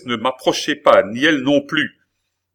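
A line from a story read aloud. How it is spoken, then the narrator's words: Exclaimed. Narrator (French): s'écria la princesse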